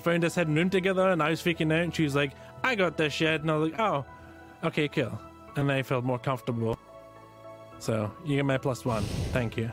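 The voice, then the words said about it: Thick Scottish accent. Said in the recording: “the thick Scottish accent ... It was his Scottish accent”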